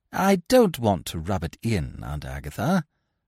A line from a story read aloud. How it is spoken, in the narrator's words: I said coldly